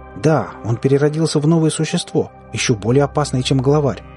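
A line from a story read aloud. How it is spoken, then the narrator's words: Exclaimed. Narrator (Russian): воскликнул Лёс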